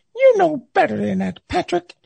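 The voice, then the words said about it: Les Miles impression. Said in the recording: “That was his voice. ... great Les Miles impersonation”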